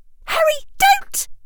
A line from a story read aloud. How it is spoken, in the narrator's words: shrieked Hermione